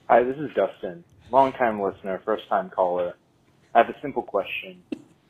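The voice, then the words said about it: Put-on self-important phone voice. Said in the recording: “That really doesn't sound like you. ... That's my phone voice ... my phone work voice. That's like the voice I put on when I'm talking to somebody at work and I have to like try to sound important.”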